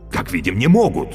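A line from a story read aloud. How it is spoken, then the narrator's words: Exclamation. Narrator (Russian): воскликнул Каще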